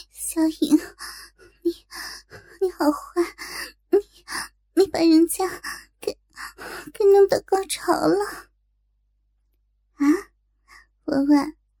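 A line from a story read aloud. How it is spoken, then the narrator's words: Breathless, flustered panting. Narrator (Chinese): 小文双颊火红，娇喘吁吁的说道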